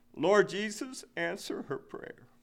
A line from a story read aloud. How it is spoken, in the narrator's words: as she prayed in her simple childlike way, I heard my wife saying with a sob in her throat